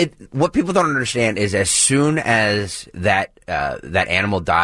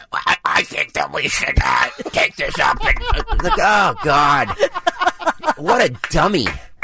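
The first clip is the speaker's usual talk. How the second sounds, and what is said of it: Imitates another person's voice. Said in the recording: “Pretty good impression.”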